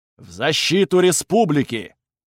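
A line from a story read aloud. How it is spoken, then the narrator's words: Booming chorus of hundreds. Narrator (Russian): Хор сотен голосов прогудел на всю Красную Пустошь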